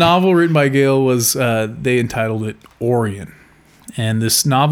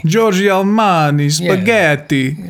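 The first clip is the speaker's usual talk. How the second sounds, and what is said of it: Put-on Italian accent. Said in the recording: “that was your impersonation ... a little Italian”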